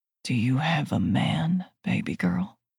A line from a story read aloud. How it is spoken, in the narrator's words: He asks, his voice pitched low